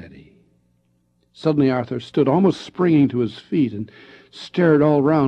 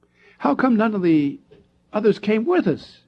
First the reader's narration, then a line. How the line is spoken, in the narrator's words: he cried out